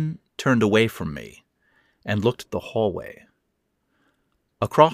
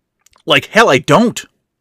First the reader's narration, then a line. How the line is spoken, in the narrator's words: I spat back